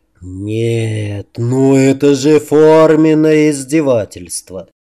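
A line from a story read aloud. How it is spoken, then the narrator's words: Old vampire's rueful sigh. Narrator (Russian): Сокрушенно вздохнул старенький вампир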